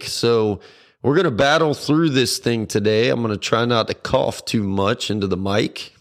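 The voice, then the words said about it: Hoarse voice, recovering from illness. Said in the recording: “as I'm sure you can tell, I'm just getting over losing my voice and being sick”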